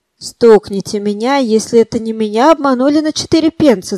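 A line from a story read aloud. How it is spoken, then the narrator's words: Exhausted shout. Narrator (Russian): закричал измученный кондуктор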